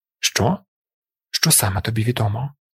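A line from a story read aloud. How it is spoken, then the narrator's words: Quiet insistent question. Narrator (Ukrainian): Тихо, але наполегливо запитав командир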